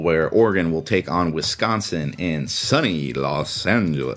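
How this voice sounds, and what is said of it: Exaggerated deep announcer voice. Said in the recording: “deep voice”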